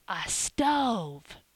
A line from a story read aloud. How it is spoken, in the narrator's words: Phronsie whispered in the doctor's ear